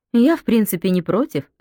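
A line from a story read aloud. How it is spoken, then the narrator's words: Plain. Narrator (Russian): сказала хозяйка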